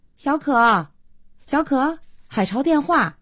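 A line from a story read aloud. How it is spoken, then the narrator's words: Calling out. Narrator (Chinese): 慧娟 叫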